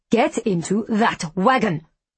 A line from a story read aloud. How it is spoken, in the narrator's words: she snarls